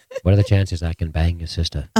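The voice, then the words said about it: Imitates a TV character's voice. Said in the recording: “Can you do the Littlefinger voice?”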